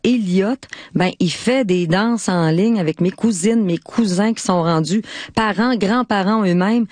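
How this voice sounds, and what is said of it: Lac-Saint-Jean Quebec French accent. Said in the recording (French): “mon accent du lac Saint-Jean”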